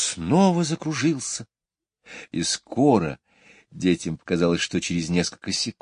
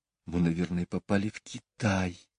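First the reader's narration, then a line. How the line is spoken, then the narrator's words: Whispered. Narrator (Russian): прошептала Джейн Майклу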